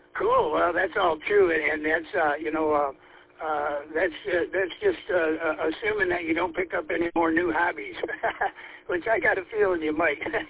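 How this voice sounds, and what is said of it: Worn voice, partly lost. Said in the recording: “my voice I've been losing my voice here the last week or two, kind of thing, so I probably sound different”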